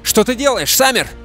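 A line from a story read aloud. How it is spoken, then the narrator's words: Shouting. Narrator (Russian): крикнул кто-то со спины медведя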